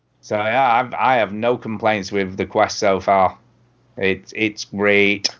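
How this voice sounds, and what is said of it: Lancashire accent. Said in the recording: “my very best Lancashire accent”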